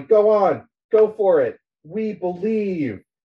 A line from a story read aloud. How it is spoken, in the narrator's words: people on the west side of the Galley River yelling